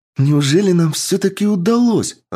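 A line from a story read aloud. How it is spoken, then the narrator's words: Joyful exclamation. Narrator (Russian): радостно воскликнула Таира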